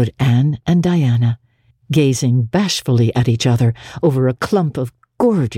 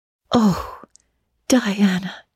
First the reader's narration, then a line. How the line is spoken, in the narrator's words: said Anne at last, speaking almost in a whisper